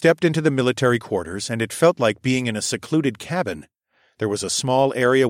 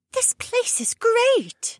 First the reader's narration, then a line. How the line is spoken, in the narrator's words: Becca gasped